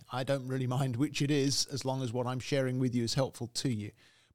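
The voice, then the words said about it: British English accent. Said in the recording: “You can tell from my accent that I'm not American ... originally I'm from the UK, I'm British”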